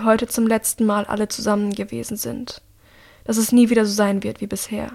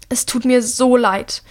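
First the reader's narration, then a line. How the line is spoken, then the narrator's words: Shouting over thunder. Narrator (German): ruft er seinem Bruder über den Donner hinweg zu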